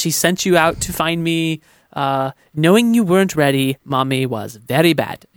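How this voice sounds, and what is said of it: Poorly done villain accent impression. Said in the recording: “I do a terrible accent”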